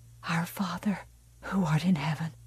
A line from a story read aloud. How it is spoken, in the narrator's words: Margaret White whispered